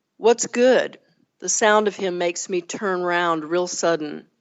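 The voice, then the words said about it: Southern US accent. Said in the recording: “it has some Southern language, and I may kind of lapse into a little bit of Southern accent when I read it”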